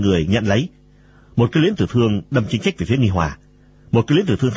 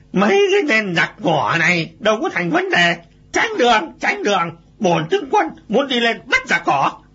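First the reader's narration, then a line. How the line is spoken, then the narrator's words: Loud. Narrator (Vietnamese): Lệnh Ngô Sung lớn tiếng nói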